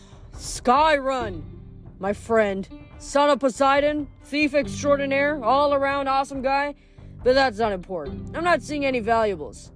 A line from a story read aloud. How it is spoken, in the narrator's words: cried, as if this were excellent news